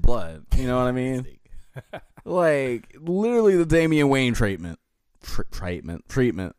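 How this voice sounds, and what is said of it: Accent briefly slipping out. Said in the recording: “my accent slipped out”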